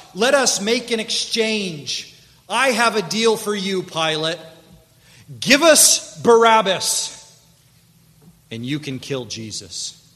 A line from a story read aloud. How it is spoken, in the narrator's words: The leaders overcome the mob and they begin to shout